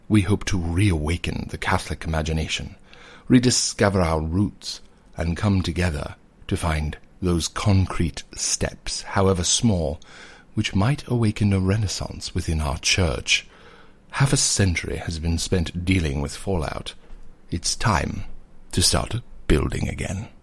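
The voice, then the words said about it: Put-on British accent. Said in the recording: “American accent is back. ... I'm truly a British, nefarious, evil overlord with a lair.”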